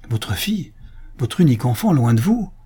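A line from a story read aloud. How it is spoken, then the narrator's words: Exclaimed. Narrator (French): s'écria Antonio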